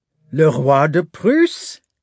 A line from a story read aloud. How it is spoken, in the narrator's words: Hippolyte said interrogatively, again laughing